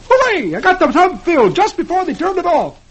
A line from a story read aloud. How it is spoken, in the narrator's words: he exclaims